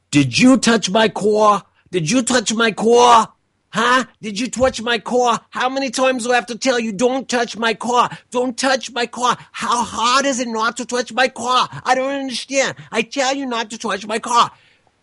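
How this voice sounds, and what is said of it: Shouting, imitated accent of a young woman. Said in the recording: “starts screaming at the top of her lungs ... my accent isn't as great as hers was”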